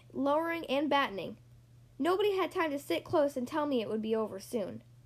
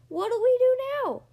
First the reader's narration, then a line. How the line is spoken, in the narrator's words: yelled one of the pirates